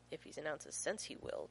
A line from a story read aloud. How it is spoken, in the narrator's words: John mutters darkly